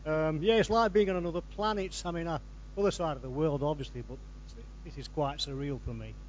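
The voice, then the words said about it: Lancashire English accent. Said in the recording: “you've still got Lancashire accent”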